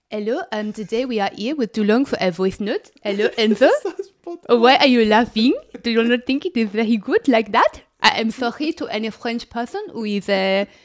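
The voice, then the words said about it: Put-on French accent. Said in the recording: “I feel like I'm quite good at accents, aren't I? ... Like French. ... so spot on”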